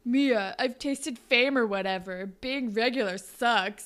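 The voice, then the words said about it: Imitated character voice. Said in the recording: “It was such a good Peter impression ... Peter voice ... It's a good Peter voice”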